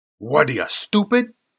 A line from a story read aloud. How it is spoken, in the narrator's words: snarled